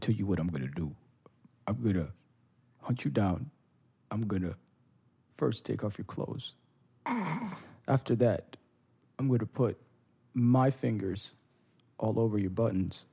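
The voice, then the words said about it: Imitates another person's voice. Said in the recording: “Neeson impersonation sounds nothing like the man in real life ... it couldn't be further from the way he talks.”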